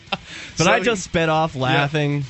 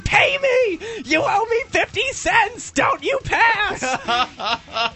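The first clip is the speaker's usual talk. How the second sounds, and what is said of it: Screaming, yelling voice. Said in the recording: “she's screaming”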